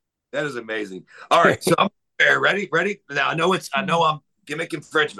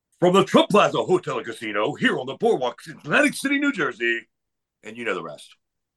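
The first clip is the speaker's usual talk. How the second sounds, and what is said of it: Booming announcer voice. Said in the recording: “that's not bad ... what we call an announcer voice ... That's a great announcer voice.”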